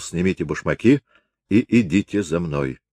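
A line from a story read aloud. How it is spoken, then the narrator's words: Quiet. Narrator (Russian): Он тихо сказал Глоссену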